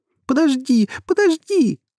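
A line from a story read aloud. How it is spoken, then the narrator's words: Shouting. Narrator (Russian): кричала ему Рита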